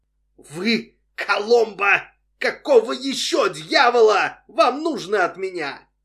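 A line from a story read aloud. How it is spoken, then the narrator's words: Yelling at full voice. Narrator (Russian): Джонни орал в полный голос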